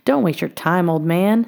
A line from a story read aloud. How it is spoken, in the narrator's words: sneered Tom